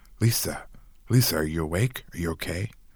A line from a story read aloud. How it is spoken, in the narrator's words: I murmured at her so that hopefully she'd hush and go back to sleep